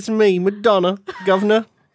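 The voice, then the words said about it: Fake British accent. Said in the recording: “This is my fake British accent.”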